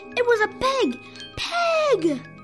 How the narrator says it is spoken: shouted Frank, not sure what else to say on seeing a pig

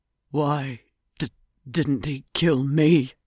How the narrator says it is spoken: Douglas groaned

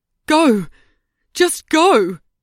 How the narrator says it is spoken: Ruby shouted

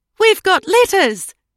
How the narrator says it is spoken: cried Edie

